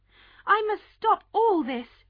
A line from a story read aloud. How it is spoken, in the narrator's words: she cried